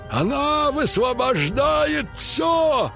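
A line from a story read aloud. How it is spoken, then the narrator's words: Shout. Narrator (Russian): крикнул Мышавур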